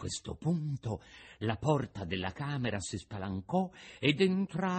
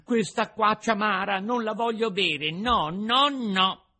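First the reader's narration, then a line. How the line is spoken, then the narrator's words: Shouted, bursting into tears. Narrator (Italian): gridò Pinocchio dando uno scoppio di pianto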